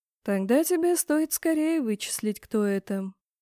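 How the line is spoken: Quiet. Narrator (Russian): тихо сказал Кейн

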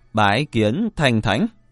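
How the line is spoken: Raised formal voice. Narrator (Vietnamese): Huyền Cơ cất cao giọng

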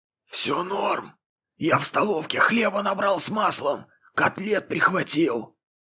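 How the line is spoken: Eerie rasp, convalescent. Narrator (Russian): Сообщает своим жутким хрипом выздоравливающий

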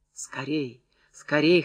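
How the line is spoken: Hoarse, breathless. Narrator (Russian): хрипела она, задыхаясь

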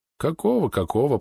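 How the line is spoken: Muttered. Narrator (Russian): пробормотал Ултон

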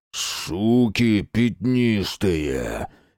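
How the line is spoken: Hateful hoarse general. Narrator (Russian): с ненавистью прохрипел генерал

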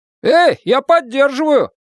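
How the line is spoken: Shouted. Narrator (Russian): закричал Билл Скэнлон

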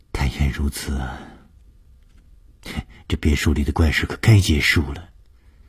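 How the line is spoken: Sighing. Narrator (Chinese): 舒子英叹了一口气说

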